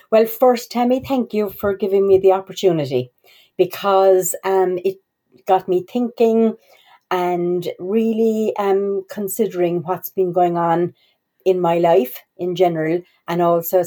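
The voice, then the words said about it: Irish accent. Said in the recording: “your lovely Irish accent”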